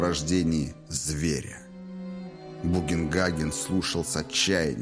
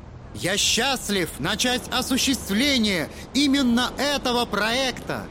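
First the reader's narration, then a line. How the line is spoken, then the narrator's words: Loud over wind, to crowd. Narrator (Russian): Громко говорил Торн, превозмогая шум ветра и обращаясь к толпе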